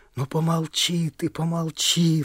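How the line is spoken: Pleading. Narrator (Russian): взмолился он

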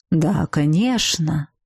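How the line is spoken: Calm agreement. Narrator (Russian): спокойно согласился с ректором, ничуть не потрясенный, в отличие от меня, Саэр

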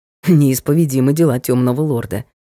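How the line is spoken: Amused snort. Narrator (Russian): хмыкнул Ник

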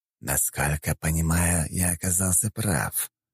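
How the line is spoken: Sinister hiss. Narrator (Russian): прошипел Жемчужников, и в этот момент его шипящий голос показался особенно зловещим

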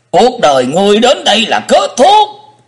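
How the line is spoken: Hissing. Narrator (Vietnamese): Hải Ma giáo chủ rít lên

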